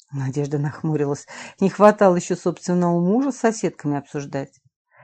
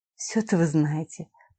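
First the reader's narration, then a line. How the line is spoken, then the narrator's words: Muttering. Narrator (Russian): пробормотала Надежда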